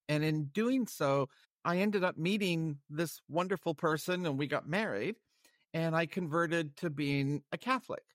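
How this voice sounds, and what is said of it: Canadian English accent. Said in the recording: “I grew up in Canada, where I acquired this wonderful accent.”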